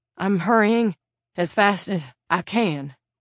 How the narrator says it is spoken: panting hard now

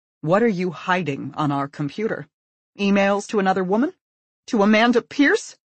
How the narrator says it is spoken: Her voice climbs

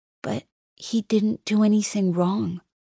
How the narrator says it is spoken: Ada says in a tiny voice

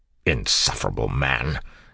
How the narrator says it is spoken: Kelsier snapped

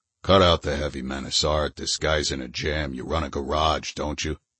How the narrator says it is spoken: The purring voice from over in the shadows said

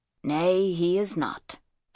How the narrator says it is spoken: agreed Sheftu blandly

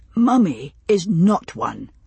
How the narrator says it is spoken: Roger said firmly

